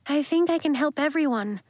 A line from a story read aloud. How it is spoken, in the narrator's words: said nervously